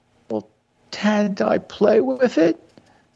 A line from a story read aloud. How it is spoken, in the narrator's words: His voice was a sob